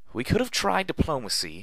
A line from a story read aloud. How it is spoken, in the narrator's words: Velvet cried out as she ran for her life